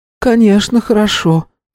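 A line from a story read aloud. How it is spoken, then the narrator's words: Sigh. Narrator (Russian): вздохнула Шукуфа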